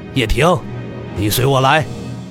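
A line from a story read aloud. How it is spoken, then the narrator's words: Cold. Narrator (Chinese): 冷声道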